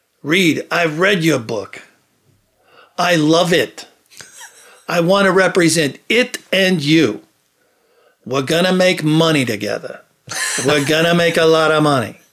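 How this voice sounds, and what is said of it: Super New York accent, Woody Allen-like. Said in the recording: “it's just super New York, man. You know, it's like a Woody Allen character. The accent, everything”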